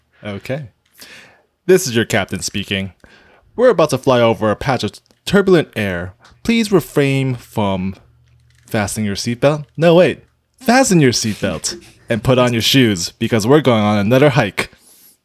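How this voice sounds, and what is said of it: Airline pilot announcement voice. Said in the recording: “do the pilot voice.”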